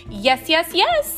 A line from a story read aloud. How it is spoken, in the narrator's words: I answered, wishing that he could hear more than just the usual squeak, squeak, squeak